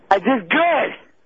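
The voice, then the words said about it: Yelling. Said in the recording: “Stop yelling.”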